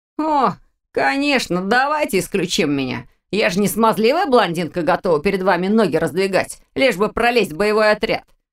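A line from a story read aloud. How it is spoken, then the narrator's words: Contemptuous scoff. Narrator (Russian): Презрительно хмыкнул Виктор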